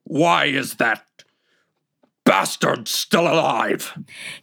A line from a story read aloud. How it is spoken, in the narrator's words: he growled, raging as if the wolf were the boy's fault, and shouted